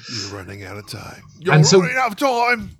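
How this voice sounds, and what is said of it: Put-on accent, voice-acting style. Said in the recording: “That's a great accent. That's a great accent ... you should really give up the day job and go into voice acting”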